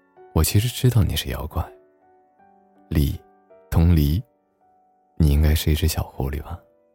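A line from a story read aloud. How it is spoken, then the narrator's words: Sighing. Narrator (Chinese): 苏先生叹了口气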